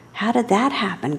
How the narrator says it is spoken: gasped her mother

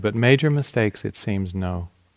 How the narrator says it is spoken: the Dalai Lama said evenly

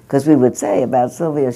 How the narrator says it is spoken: she laughs

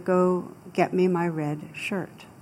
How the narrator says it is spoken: the captain very calmly said

